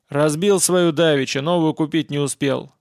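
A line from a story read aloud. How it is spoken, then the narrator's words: Loud grumble. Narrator (Russian): громко проворчал партизан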